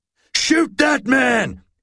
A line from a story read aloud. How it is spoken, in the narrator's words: he cried